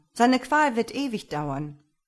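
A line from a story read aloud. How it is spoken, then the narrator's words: Farmer calling out. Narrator (German): rief der Bauer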